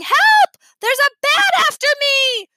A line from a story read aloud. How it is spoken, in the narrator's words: Libby tore through the house yelling